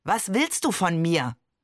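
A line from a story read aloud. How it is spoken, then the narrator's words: Growling. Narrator (German): Voltaire knurrte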